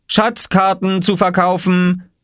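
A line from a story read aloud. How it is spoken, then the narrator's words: Calling out. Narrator (German): rief Oskar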